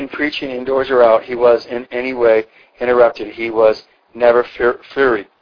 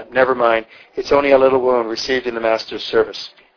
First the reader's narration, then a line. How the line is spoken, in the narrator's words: quietly, with a smile said